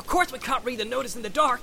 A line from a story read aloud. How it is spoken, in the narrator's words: Sam shouted back